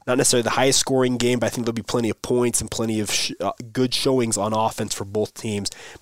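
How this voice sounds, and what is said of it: Voice rough from a cold. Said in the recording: “Pardon my voice. It's been a rough week for me in terms of having this cold and trying to get over it”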